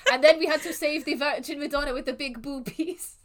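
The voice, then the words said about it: Put-on French vampire accent. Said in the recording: “the awful French accents ... I sound like Nando. ... you found your vampire voice. Accent.”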